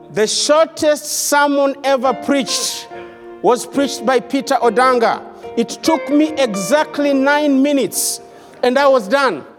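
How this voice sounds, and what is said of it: Kenyan English accent. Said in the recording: “my wonderful accent. All the way from Africa, Kenya.”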